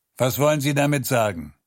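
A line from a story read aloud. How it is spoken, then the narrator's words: Snapping. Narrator (German): schnauzte an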